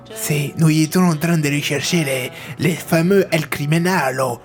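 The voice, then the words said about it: Put-on foreign accent. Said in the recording (French): “ton joker est raciste ... Pourquoi c'est raciste de faire un accent?”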